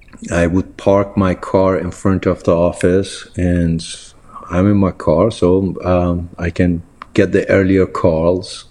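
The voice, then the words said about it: Heavy foreign accent. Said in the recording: “this heavy accent”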